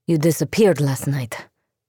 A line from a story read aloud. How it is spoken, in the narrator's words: Nadia panted